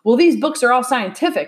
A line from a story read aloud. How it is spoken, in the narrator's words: insisted Tom impatiently